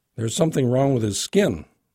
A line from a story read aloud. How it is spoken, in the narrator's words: I blurted